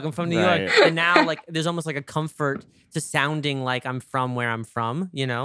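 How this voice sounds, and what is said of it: New York accent. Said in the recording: “my New York accent got stronger since moving to LA ... accidentally, like, subconsciously exaggerated”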